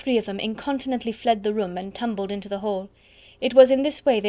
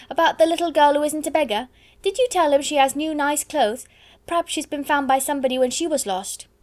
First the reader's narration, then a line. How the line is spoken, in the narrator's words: Donald shouted again